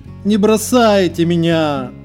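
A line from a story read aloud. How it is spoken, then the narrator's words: Cat's strained moan. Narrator (Russian): простонал кот, висевший в окне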